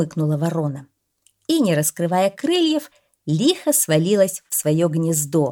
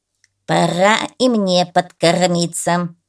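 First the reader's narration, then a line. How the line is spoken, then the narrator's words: Muttering crow. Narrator (Russian): пробормотала ворона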